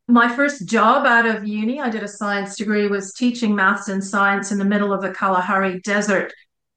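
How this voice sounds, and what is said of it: Canadian accent. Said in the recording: “as you can tell, I am Canadian by background and by accent.”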